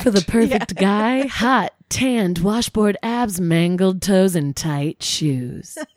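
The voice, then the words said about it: TV commercial announcer voice. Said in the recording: “My voice went really commercial for that”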